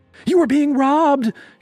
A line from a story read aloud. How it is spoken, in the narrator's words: she screamed, faking surprise